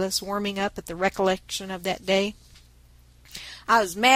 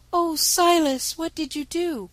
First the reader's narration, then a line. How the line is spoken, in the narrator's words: cried Nan, with a face full of eager sympathy and interest